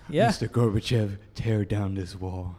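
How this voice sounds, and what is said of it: Imitates another person's voice. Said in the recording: “that was a pretty good impression, man. I'm impressed.”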